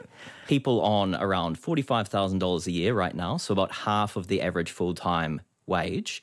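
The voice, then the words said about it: New Zealand accent. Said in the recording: “my Kiwi accent.”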